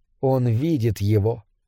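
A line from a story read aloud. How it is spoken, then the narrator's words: Quiet. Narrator (Russian): тихо сказала она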